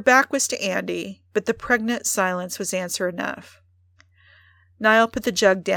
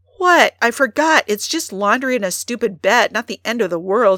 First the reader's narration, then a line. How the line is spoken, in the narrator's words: she exclaimed